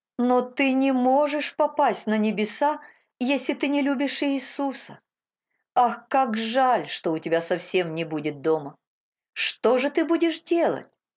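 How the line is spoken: Sobbing tearfully. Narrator (Russian): всхлипнула Мейбл, и по ее щекам покатились слезы

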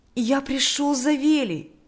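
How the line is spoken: Joyful voice. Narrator (Russian): сказал Миша радостным голосом

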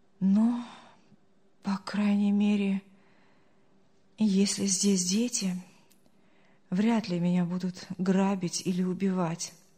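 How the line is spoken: Relieved sigh. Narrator (Russian): облегченно вздохнул Артур

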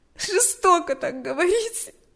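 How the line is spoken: Sobbing reply. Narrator (Russian): ответила Галя, всхлипывая

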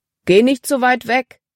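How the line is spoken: Calling out to her. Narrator (German): rief Paul ihr zu

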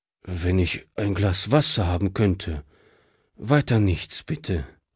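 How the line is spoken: Tired refusal. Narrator (German): wehrte dieser müde ab

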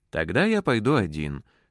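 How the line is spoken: Plain. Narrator (Russian): сказал он

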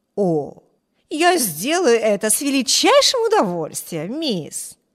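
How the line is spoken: Exclamation. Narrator (Russian): воскликнула миссис Джессел

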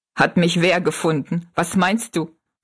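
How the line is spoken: Laughing question. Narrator (German): fragte Jings lachend

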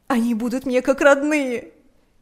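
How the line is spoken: Shouting through sobs. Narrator (Russian): кричала она сквозь рыдания

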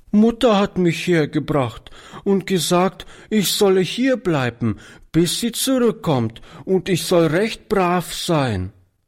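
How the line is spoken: Little girl sobbing. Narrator (German): erklärte die Kleine schluchzend

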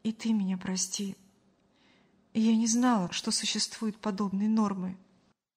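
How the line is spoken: Conciliatory tone. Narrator (Russian): Мария примирительным тоном произнесла

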